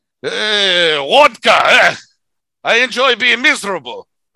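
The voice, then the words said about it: Put-on Russian accent. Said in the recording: “your amazing Russian accent.”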